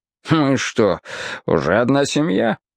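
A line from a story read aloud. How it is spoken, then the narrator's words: Snorting. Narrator (Russian): хмыкнул цирюльник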